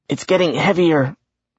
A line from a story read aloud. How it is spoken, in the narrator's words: Randolph gasped